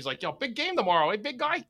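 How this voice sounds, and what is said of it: Partial put-on accent. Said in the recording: “I didn't want to do like the full accent.”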